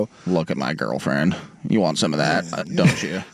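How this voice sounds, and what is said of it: Flat, indifferent imitation of another person. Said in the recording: “Very good Belichick impression ... Just literally have to sound like you do not care about anything”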